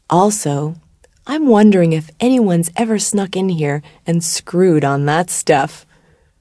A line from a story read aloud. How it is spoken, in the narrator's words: she dropped her voice